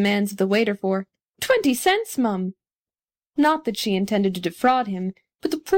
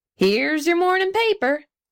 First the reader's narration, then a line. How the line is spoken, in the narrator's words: yelled a newsboy